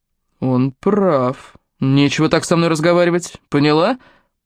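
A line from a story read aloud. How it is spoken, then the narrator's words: Growled. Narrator (Russian): прорычал Рэй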